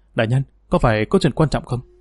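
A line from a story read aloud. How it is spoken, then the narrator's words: Quiet question. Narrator (Vietnamese): Tiêu Phương nhỏ giọng hỏi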